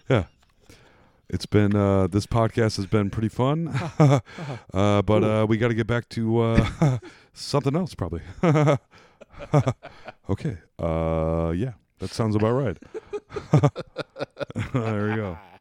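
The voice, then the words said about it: Rough Jeff Goldblum impression. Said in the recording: “That was my Jeff Goldblum. These are not good impressions at all”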